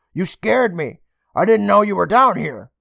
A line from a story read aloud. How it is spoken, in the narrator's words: Emma called out to her